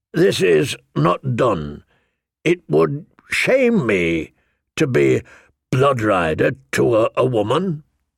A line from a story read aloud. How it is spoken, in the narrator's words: he said hesitantly